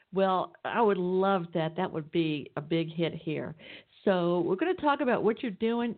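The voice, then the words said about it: Southern Atlanta, Georgia accent. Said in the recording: “You might even tell from my accent I'm down here in Atlanta, Georgia.”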